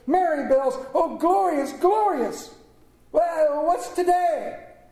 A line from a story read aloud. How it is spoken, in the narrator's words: cried Scrooge downward to a boy in Sunday clothes